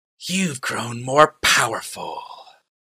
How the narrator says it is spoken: snarled, but his words were forced

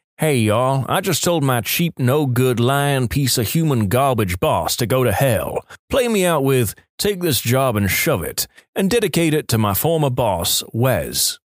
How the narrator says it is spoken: In a fake southern accent, I said

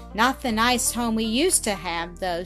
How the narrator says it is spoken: sighed Zillah

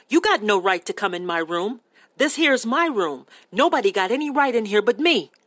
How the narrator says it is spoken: Crooks said sharply

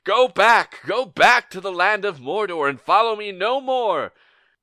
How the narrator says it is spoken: He draws his sword and yells

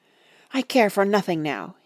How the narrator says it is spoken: he answered hotly

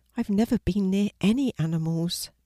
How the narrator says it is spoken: Penny said timidly

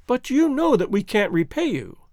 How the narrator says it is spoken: cried the girl

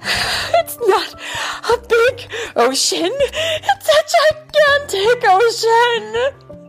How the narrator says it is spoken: screamed Fear

